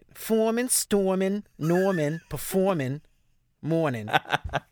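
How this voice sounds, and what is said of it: Put-on New Orleans Yat accent. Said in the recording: “I could have done this in a Yat accent, though. That'd be really easy”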